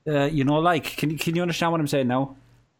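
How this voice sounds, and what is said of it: Exaggerated Irish accent. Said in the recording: “I can totally play up the accent a little bit. Let's make it really difficult for you to understand what I'm saying.”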